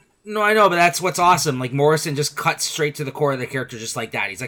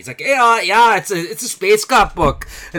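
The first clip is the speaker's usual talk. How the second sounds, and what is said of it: Poor attempt at a Scottish accent. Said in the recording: “accent was that? ... Jamaican? ... That was a horrible Scottish book accent. ... It sounded Jamaican.”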